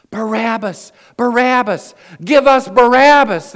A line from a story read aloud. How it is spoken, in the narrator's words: cried out over and over again